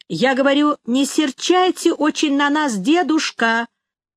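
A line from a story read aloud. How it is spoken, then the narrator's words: Shouting into ear. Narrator (Russian): закричала я ему в самое ухо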